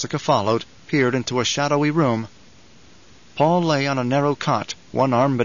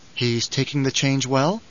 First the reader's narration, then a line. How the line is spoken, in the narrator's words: she asked